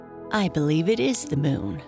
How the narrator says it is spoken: said his sister

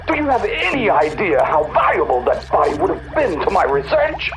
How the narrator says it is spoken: Crowley screeched lividly

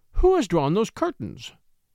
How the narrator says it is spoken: she exclaimed

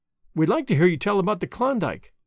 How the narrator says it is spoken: Madge said

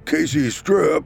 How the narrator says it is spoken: Clyde bellowed out

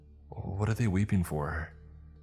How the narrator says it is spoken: Mateo faltered

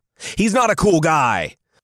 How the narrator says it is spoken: Arngrim barked

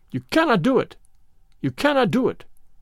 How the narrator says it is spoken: he cried

